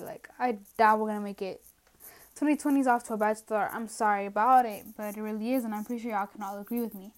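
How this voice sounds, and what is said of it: Out of breath, winded speech. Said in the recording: “I don't know why I'm running out of breath. I am so out of shape.”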